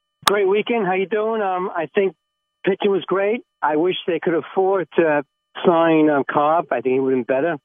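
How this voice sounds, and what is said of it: Staten Island New York accent. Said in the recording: “I'm really from Staten Island, New York... My accent, right?... we couldn't understand a lot of it.”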